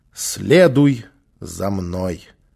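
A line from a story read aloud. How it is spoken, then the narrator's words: Slow. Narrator (Russian): Незнакомец произнес медленно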